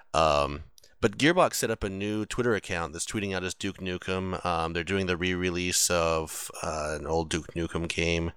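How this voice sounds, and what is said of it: Strained voice, lower than normal. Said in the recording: “losing my voice entirely. If you notice that my voice is about half an octave lower than normal”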